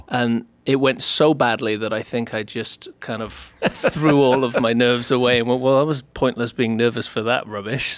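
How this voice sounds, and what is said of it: Welsh accent. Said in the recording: “Did you actually grow up in Wales, or is this like an accent you put on to impress American women? ... I did grow up in Wales. ... just outside Cardiff.”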